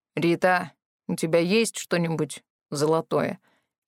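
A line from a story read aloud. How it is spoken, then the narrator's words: Quiet question. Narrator (Russian): тихо спросил Морис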